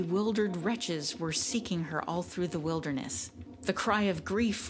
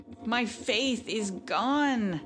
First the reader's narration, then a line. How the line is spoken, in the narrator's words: cried he after one stupefied moment